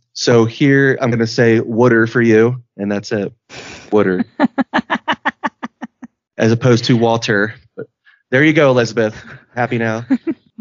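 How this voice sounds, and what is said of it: Philadelphia accent, distinctive O vowels. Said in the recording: “she knew where I was from based on my accent, how I say my O's, which is Philadelphia ... says water just like that. Wooter.”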